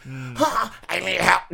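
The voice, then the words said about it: Raspy child character voice. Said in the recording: “He had a raspy voice.”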